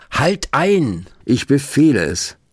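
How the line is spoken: Commanding shout. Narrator (German): rief Rabbi Löw

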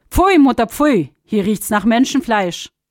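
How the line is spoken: Calling out. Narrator (German): Die Sonne rief sogleich

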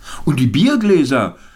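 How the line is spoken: Calling out to group. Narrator (German): rief jemand in die Runde

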